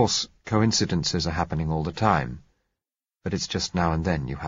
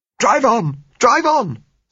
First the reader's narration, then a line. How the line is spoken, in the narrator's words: said Josella hysterically